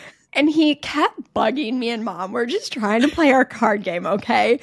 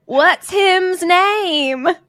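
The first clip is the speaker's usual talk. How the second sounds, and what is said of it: Child's voice, southern accent. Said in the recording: “in this little southern accent”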